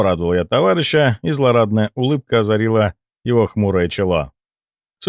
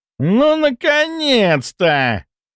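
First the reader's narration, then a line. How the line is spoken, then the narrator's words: Suddenly nasty exclamation. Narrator (Russian): Неожиданно противным голосом воскликнул Кулясов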